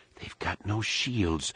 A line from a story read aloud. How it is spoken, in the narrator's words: whispered, more to herself than anyone else